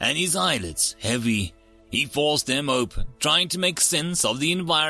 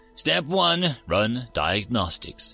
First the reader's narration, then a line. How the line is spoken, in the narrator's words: he said to himself, choosing to level his voice to a calm cadence